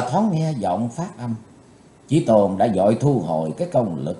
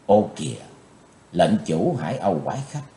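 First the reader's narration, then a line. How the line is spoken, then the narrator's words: Soft involuntary exclamation. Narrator (Vietnamese): Chí Tôn bất giác kêu khẽ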